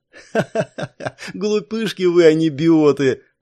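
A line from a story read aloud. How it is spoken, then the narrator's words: Mocking laughter. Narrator (Russian): рассмеялась Ирисана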